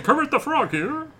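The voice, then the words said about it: Kermit the Frog impression. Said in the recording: “It's not a bad Kermit the Frog impression.”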